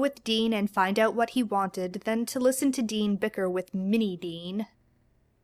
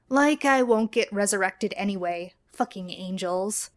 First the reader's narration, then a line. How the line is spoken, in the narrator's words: Adam grumbled